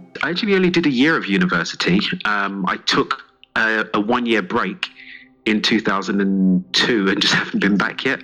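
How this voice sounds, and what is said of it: English accent, East London. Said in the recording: “You sound like you have an English accent. ... I'm from East London originally.”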